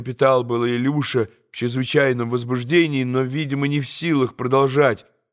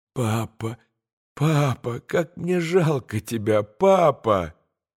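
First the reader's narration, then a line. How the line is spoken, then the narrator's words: Child's bitter moan. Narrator (Russian): горько простонал Илюша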